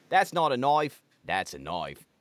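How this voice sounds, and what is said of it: Put-on New Zealand accent. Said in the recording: “they're saying that New Zealand is deeper ... if I was to do it in Kiwi”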